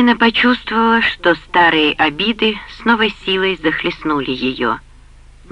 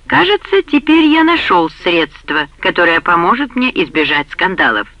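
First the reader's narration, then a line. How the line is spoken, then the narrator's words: Cheerful remark. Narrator (Russian): весело заметил Джерд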